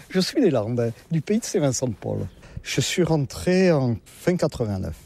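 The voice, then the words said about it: Southern French regional accent. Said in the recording (French): “comme vous l'entendez, je ne suis pas de la région ... Avec mon accent, je ne suis pas du nord de la Loire”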